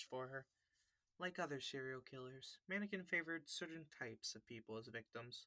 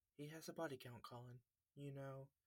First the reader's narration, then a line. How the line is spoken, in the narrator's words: Her voice was even quieter than before as she said